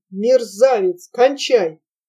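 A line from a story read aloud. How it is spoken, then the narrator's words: Angry hiss through sob. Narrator (Russian): сквозь прорвавшийся злобный свой всхлип прошипел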